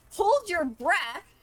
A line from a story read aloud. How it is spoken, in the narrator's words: Is going to yell to Tana